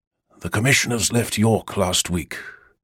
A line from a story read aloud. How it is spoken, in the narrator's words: Brother William murmured